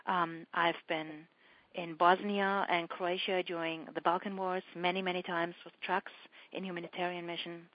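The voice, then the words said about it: German accent. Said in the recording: “being German, as you might hear from my accent”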